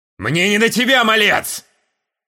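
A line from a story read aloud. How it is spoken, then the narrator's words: Barked. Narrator (Russian): Рявкнул Вольх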